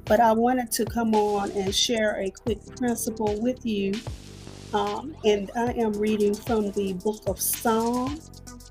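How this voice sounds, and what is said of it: Slightly hoarse voice. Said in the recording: “I'm still a little bit hoarse. I've been under the weather”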